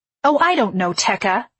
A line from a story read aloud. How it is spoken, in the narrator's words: I snapped